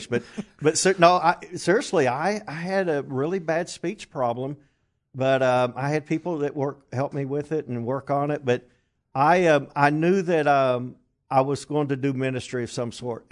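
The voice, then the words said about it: English accent. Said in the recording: “I have a funny accent now, but I've lost over half of my accent ... the first American evangelist with an English”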